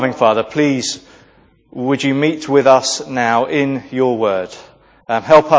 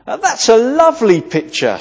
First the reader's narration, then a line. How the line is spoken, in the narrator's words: exclaimed